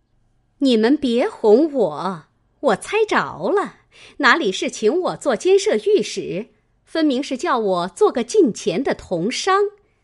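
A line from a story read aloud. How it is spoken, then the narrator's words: Laughing. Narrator (Chinese): 凤姐儿笑道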